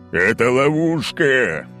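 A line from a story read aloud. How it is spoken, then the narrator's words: Roar. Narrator (Russian): взревел Олимпий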